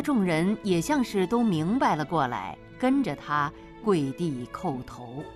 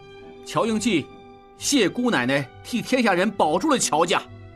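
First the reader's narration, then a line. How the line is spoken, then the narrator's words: Loud, tearful. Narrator (Chinese): 应季热泪盈眶，大声道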